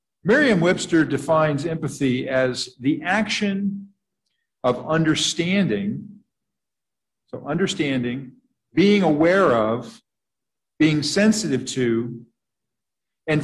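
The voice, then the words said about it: Slow, deliberate reading. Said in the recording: “read this slowly”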